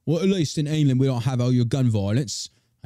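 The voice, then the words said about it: Attempted English accent, unclear. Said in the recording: “I don't know what accent that was, but we're just gonna go with it.”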